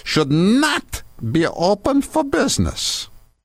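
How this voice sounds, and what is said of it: Put-on German accent. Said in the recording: “I'm going into my German accent”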